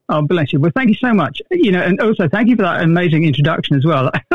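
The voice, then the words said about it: Distinctive appealing accent. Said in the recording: “that incredible voice ... with your accent, you could sell anything ... in your accent”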